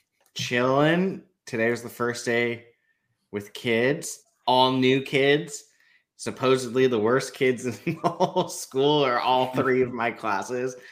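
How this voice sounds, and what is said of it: Hoarse, worn-out voice. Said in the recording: “My voice is already shot for the most part.”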